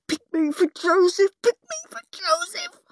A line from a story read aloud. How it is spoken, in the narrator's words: Horrid Henry begged silently